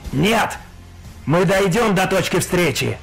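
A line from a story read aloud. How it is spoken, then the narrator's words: Growled over vox. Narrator (Russian): прорычал Нуэнхан в воксе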